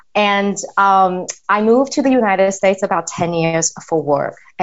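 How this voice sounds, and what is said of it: Mixed Taiwanese and Australian English accent. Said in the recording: “I'm originally from Taiwan, and I grew up in Australia. That's why I learned my English. So I always joke that I have a very culturally confused accent.”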